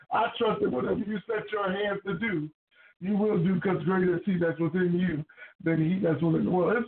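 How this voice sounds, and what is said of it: Country accent, preacher-like delivery. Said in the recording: “I sound like a holiness of hell preacher ... my country accent ... my old Pentecostal flair”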